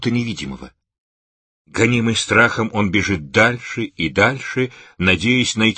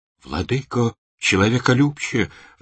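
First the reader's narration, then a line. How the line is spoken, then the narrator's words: Desperate young man pleading. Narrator (Russian): взмолился в отчаянии юноша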